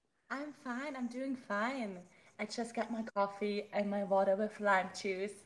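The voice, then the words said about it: German-accented English. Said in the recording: “obviously, you can hear my German accent.”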